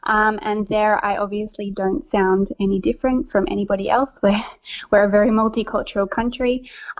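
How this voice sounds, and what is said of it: Australian accent. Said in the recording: “you obviously have a beautiful accent that's not American ... I am Australian, born and bred”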